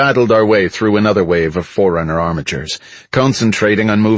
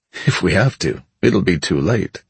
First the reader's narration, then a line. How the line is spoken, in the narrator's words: Kelly said with a low chuckle